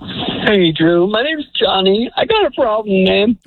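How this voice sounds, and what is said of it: Choked-up voice on verge of tears. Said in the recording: “I can tell you're on the verge of tears.”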